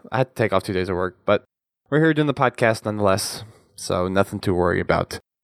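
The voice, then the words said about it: Slightly off, sick-sounding voice. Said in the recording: “my voice is a little out of sorts because I've been sick for the past few days”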